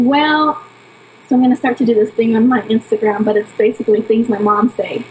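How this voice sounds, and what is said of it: Usual voice. Nothing is said of it.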